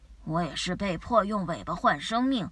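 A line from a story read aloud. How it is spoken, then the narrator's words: Disappointed sigh. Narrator (Chinese): 叶森格伦失望地叹了口气说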